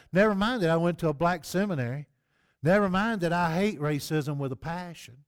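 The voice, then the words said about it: Southern US accent. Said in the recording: “a white southern boy with a southern accent”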